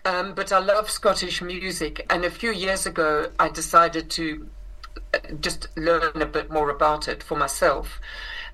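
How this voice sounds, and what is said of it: South African accent. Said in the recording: “I grew up in South Africa, which is where I inherited this accent”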